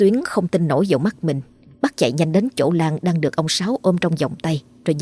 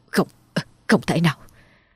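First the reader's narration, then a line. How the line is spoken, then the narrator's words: Stammering. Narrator (Vietnamese): miệng lắp bắp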